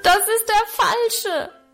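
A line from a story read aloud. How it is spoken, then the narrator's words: Desperate roaring. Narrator (German): brüllte ich verzweifelt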